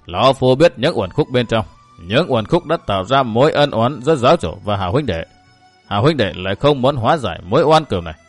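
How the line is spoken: Smiling, continuing. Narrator (Vietnamese): Mạc Vĩnh Chi mỉm cười nói tiếp

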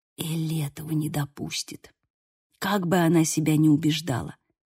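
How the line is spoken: Whisper. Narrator (Russian): прошептал Лука

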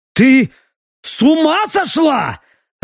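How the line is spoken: Barked. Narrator (Russian): рявкнул он

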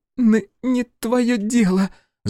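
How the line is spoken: Stuttering snort. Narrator (Russian): Заикаясь, фыркнула Мейбл

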